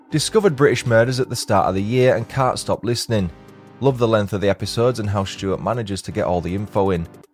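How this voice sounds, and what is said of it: Yorkshire accent. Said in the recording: “Also love the accent, as I'm also from Yorkshire ... your wonderful accent”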